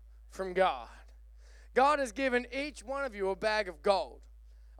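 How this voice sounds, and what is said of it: Usual voice. Nothing is said of it.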